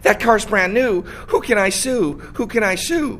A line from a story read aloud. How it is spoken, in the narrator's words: After a tree fell on his car, a man on Long Island frantically saying